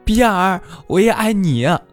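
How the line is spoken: Tearful. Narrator (Chinese): 安妮流着眼泪说

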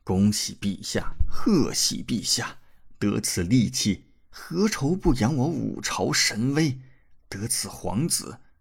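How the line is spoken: Cheerful grinning. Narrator (Chinese): 王林一脸笑嘻嘻的

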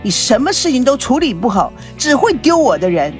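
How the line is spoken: Angry. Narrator (Chinese): 孙正愤怒地

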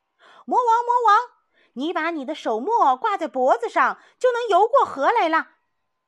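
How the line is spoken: Loud shout. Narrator (Chinese): 他就大声地对魔王喊

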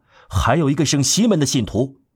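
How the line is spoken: Shouting. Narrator (Chinese): 追赶的人喊道

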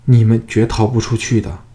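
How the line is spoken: Trembling voice. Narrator (Chinese): 郭开颤声说

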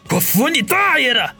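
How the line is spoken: Dazed, furious loud cursing. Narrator (Chinese): 王宇被打得眼冒金星，心中怒火腾的升起，大声骂道

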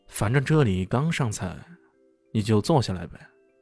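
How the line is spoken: Cool, flat. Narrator (Chinese): 李炫淡淡的说道

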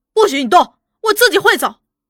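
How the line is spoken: Angry shout. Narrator (Chinese): 苦茶坚强地反抗着，怒声喝道

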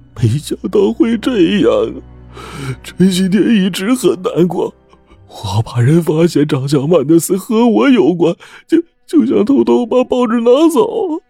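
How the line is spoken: Crying. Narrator (Chinese): 老黄哭着说

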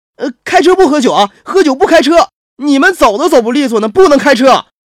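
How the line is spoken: Startled hurried shout. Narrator (Chinese): 我愣了一下，连忙喊道

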